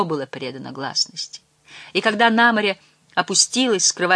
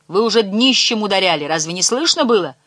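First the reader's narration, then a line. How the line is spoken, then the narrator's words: Shouting. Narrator (Russian): крикнул он им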